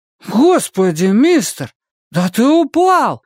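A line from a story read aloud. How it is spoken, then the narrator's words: Exclamation. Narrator (Russian): воскликнул Том Каллен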